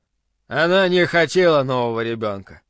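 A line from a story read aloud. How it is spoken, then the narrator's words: Grim. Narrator (Russian): добавил он мрачно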